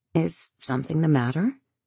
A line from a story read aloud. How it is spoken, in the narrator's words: she asks quietly